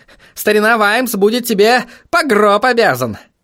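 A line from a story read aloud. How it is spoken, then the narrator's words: Snorting. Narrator (Russian): фыркнул В горле кость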